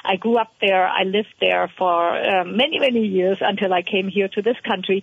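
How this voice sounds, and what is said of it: German accent. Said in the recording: “you can hear from my accent, I am a German woman.”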